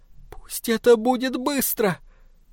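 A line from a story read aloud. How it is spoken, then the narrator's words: Pleading. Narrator (Russian): Эдит взмолилась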